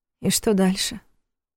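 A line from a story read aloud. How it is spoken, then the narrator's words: Muffled question. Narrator (Russian): глухо спросила она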